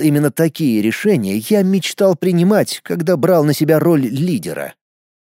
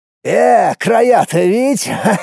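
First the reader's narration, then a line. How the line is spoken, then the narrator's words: Man laughing, then sighing heavily. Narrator (Russian): мужчина рассмеялся, а потом тяжело вздохнул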